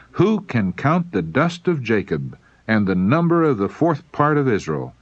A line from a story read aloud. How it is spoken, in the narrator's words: he exclaimed